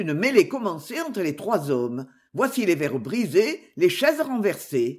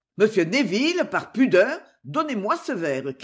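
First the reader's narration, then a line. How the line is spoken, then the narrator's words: Shouting. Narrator (French): criait Jasper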